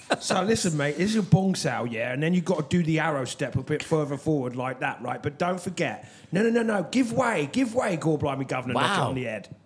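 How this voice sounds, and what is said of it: Put-on British Cockney-style accent. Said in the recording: “you got to work on your British accent when you teach me. Sounds a bit like Dick Van Dyke ... He's really good at that. Like if you close your eyes ... You really wouldn't think that he's from Jersey.”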